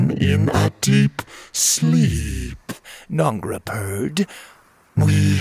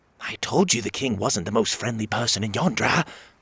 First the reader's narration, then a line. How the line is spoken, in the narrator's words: she whispered